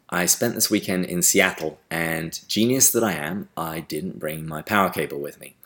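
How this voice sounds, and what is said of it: English accent. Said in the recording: “Theology with an English Accent”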